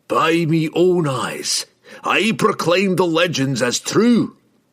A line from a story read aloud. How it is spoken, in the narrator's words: he shouted boldly